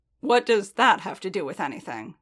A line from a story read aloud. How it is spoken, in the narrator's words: Din growled, still bristling